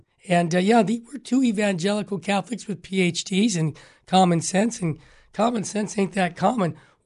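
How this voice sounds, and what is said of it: Hoarse, strained voice. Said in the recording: “I got a little laryngitis”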